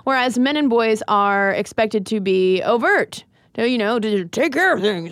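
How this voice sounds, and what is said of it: Mock angry male voice. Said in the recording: “That's my impression of an angry man”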